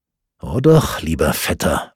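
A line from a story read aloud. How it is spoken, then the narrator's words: Quiet contradiction. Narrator (German): widersprach Lodrick leise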